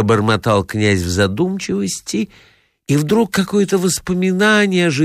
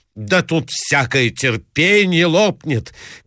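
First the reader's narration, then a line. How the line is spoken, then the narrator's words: Distressed shouting. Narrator (Russian): кричала Марья Александровна в выступлении, ломая руки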